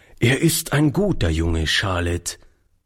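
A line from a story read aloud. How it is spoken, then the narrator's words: Plain. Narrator (German): sagte er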